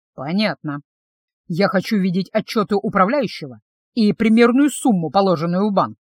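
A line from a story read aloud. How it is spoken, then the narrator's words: Plain. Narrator (Russian): сказал я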